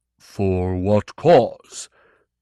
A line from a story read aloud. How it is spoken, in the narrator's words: Torgathon rumbled